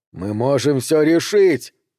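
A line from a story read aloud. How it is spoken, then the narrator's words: Pleading shout. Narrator (Russian): умоляюще прокричал Пол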